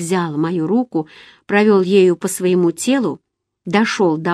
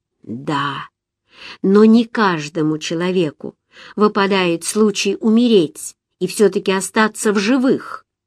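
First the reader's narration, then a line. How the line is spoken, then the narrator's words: Plain. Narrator (Russian): ответил он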